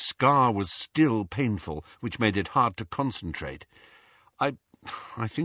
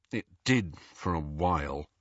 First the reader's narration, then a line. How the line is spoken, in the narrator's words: muttered Harry